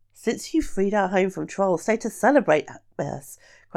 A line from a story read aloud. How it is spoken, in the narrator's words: cried with a great show of warmth